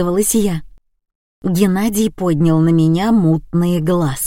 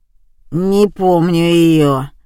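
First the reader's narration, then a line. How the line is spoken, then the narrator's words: Drawl. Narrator (Russian): протянул Крысин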